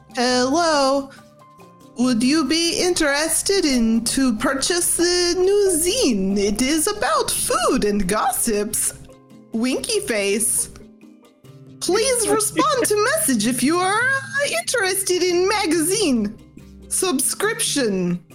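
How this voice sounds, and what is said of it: Character voice hiding her accent. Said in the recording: “will try to hide her accent a little bit. She's going to do her best Vin impression.”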